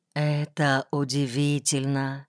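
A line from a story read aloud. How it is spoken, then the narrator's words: Quiet, hesitant. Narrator (Russian): тихо произносил Млеткин, не осмеливаясь высказать вслух дерзкую мысль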